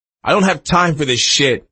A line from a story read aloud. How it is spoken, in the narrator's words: Tiger snapped at Jamie Diaz